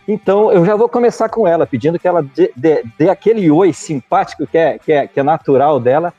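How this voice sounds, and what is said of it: Speaker with a noticeable regional accent. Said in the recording (Portuguese): “Que introdução incrível com esse sotaque”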